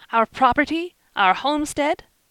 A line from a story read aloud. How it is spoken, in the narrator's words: Lou shouted